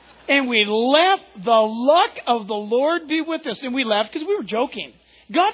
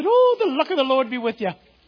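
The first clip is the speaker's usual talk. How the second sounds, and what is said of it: Put-on Irish accent. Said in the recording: “in this Irish accent”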